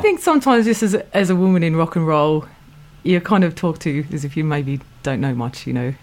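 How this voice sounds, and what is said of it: Australian accent. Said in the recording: “I hear an Antipodean flavour in your accent ... your vowels and tones ... From Australia.”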